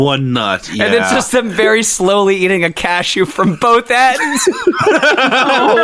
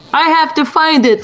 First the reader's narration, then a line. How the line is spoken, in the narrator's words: screamed Shadow like a Oprah singer